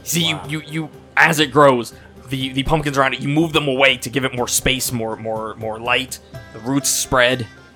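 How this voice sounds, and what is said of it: Southern drawl accent. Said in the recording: “accent's getting more southern drawl the more I'm talking. ... So is mine, I've noticed. ... the southern drawl”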